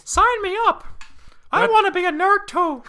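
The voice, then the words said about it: Mickey Mouse cartoon voice. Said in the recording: “That's Mickey Mouse”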